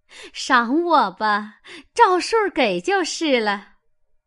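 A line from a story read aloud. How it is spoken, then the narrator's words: Laughing. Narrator (Chinese): 凤姐儿笑道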